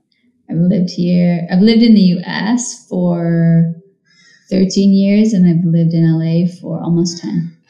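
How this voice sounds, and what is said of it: Mixed British-American accent. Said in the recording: “your little baby accent ... My accent is not American, but definitely not British.”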